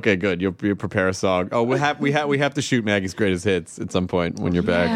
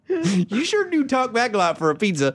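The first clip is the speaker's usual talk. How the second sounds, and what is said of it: Southern US accent. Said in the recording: “I don't know why I go into that accent all the time. It's because I grew up in the South.”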